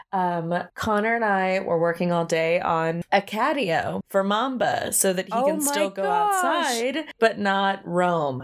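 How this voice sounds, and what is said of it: Soft, soothing voice with vocal fry. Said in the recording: “my ASMR voice ... when I'm like physically tired ... it manifests in like a fun little ASMR voice ... Like a deep vocal fry. A soothing.”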